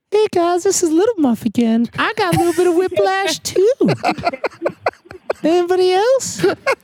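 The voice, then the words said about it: Comedic character voice. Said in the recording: “every voice is that accent ... Why does Little Muff sound like your mother-in-law? ... He's always doing that voice.”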